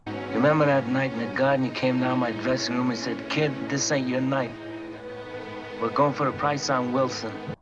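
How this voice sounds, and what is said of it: Poor New York accent impression. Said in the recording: “bad impression if it's meant to be an impression ... Got that like New York accent”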